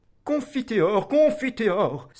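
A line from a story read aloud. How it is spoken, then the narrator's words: Submissive cry. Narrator (French): s'écria d'un ton soumis une voix à côté du roi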